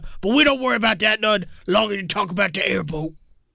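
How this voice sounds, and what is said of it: Coach O impression, Cajun cookie monster. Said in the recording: “Can you give us a little Coach O? ... It sort of sound like a Cajun cookie monster ... they sound nothing like the coaches, but they sound like the coaches should sound”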